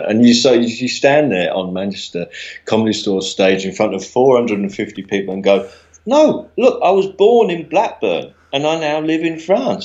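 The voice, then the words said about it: Southern English accent. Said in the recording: “you got a southern accent”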